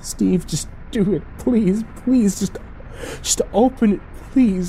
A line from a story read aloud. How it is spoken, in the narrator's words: I whimpered